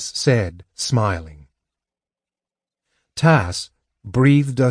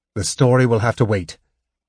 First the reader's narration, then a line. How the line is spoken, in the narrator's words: Tanis said firmly